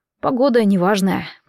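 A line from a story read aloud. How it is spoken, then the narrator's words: Muttered. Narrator (Russian): пробормотал Атор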